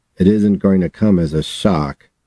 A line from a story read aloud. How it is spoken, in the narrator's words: he said, his voice tight